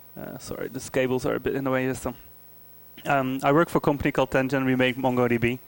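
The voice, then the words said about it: Dutch speaker, slightly English accent. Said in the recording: “I'm Dutch, but I live in London. So if you hear a slightly English accent, that's why.”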